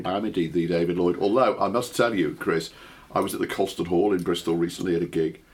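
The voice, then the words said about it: Hoarse, husky voice. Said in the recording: “I've got a bit of a cold at the moment, so apologies if I sound a little bit hoarse and husky.”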